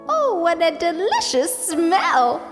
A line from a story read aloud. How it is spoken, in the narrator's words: she exclaimed